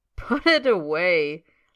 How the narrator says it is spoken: laughs Bill Weasley

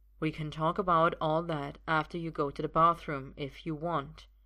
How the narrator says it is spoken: Arthur says evenly

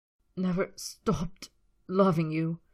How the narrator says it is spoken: Draco choked the words

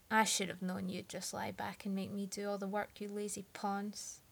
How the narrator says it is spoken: he grumbled

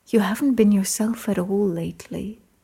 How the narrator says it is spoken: Merlin said

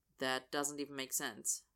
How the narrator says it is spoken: Austin says flatly

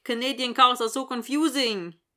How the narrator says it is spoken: Dylan says in a bad Swedish accent

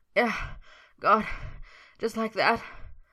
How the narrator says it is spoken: Merlin panted

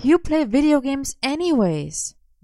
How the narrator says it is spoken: Morgana sighed

